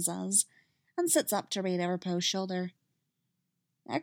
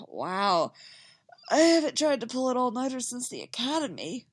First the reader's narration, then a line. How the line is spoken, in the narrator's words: he sighs